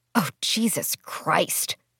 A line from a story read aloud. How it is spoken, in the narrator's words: Elaine muttered, her headache near splitting now